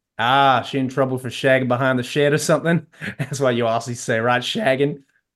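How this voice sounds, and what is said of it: Heavy put-on American Southern accent. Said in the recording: “in a heavy American South accent.”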